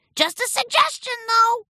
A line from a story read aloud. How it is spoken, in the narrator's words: called out